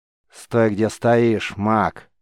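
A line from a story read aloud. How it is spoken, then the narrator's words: Stern command. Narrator (Russian): строго приказал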